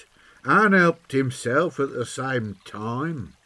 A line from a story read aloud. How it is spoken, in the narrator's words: sneered the lout